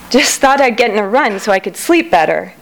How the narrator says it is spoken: she said between gasps of air, trying to sound casual

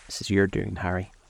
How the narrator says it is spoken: said the painter bitterly

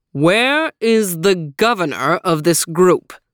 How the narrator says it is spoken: boomed the stranger

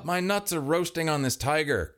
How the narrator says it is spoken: Kevin shouted from the tiger side

